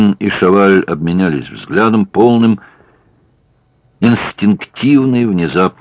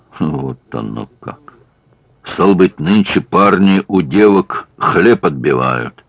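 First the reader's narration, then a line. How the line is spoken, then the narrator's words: Through gritted teeth. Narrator (Russian): Шаваль процедил сквозь зубы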